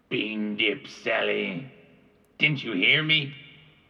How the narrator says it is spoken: Gabe growled

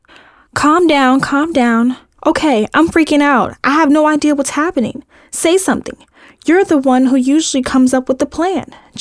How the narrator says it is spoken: Jill exclaimed, her voice getting higher with every word

